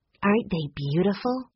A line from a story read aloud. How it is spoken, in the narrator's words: Violet said in a hushed tone